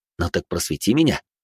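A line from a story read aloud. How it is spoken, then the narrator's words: Smirking grunt. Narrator (Russian): хмыкнул я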